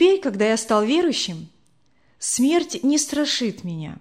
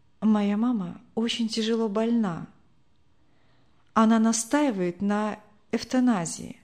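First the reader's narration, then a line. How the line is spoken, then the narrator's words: Quiet. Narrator (Russian): тихо произнесла Людмила Михайловна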